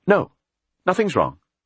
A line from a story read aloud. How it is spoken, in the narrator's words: she said curtly